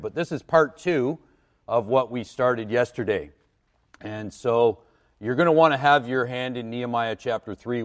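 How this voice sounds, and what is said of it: Rough, slightly hoarse voice. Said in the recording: “My voice is a little bit rough this morning”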